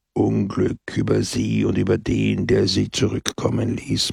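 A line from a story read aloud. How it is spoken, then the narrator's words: Gloomy murmur. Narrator (German): murmelte Peppone … mit düsterem Gesicht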